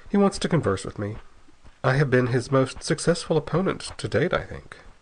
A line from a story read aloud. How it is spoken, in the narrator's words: he said dryly